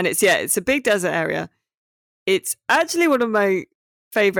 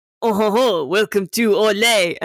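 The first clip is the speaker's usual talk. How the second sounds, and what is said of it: Comedy French accent. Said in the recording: “They do have comedy French accents.”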